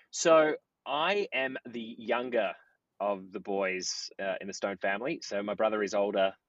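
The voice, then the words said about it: Australian accent. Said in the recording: “knowing your accent, you guys are from Australia”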